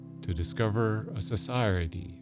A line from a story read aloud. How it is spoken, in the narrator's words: said I